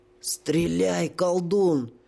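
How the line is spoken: Pleading hoarse rasp. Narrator (Russian): умоляюще прохрипел сапер

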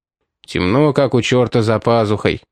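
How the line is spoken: Grumbling. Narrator (Russian): проворчал Кости

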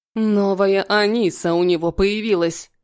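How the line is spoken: Rude cutting off. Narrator (Russian): грубо оборвала ее Хаят

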